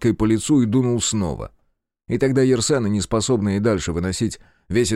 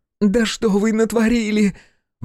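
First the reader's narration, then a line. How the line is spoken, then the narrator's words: Shriek. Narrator (Russian): взвизгнула Йоланда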